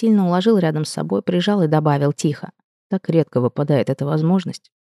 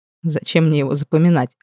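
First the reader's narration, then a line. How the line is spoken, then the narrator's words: Laughing. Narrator (Russian): рассмеялся Эдвард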